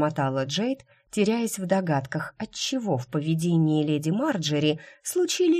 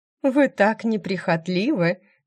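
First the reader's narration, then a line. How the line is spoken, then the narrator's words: Laughing. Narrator (Russian): засмеялась графиня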